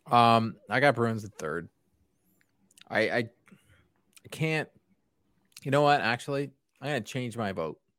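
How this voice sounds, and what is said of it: Hoarse, strained voice. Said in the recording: “I'm losing my voice. ... That was turpentine going down my throat.”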